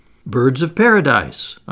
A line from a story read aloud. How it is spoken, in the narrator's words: I exclaimed